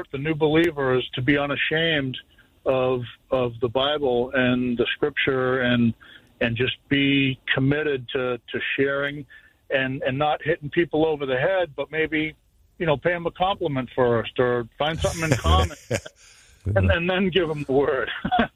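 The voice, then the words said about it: Slight Boston accent. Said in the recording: “that little bit of that accent... It's Boston.”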